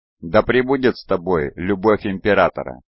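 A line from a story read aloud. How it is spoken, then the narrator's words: Plain. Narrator (Russian): сказала она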